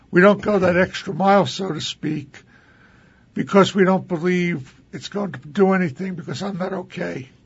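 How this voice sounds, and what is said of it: Hoarse, strained, fading voice. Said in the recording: “I'm losing my voice here.”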